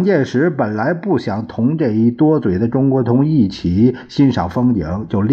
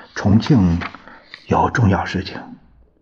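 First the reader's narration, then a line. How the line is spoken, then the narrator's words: Low voice report. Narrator (Chinese): 陈布雷向蒋介石低声报告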